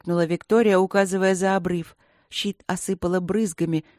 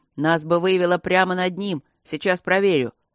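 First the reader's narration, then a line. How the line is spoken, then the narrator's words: Snorting. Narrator (Russian): Он фыркнул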